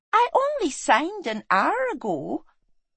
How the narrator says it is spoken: she said, smiling sweetly

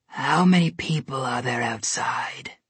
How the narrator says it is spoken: the Snow Queen asked him hoarsely

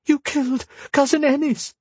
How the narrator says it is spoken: Bea practically shrieked

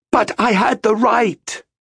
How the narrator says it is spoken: screamed

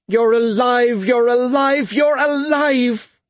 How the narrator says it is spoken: she cried

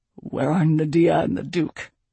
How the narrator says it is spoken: Kyaer growled

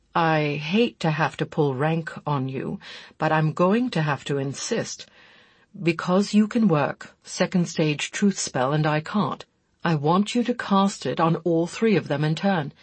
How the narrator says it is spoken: Chris said after a pause, his voice full of reluctance

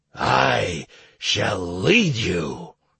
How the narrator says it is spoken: growled the leader of the White Wolf clans

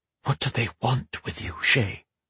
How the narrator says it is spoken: he whispered to his reflection

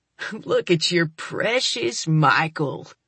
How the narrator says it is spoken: he sneers

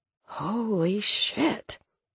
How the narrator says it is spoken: Nova mumbled

